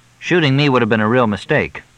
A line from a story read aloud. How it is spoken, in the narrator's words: Fletch said